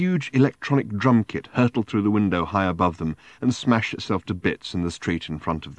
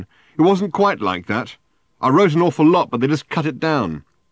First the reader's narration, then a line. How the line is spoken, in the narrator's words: said Ford, having to shout now above the din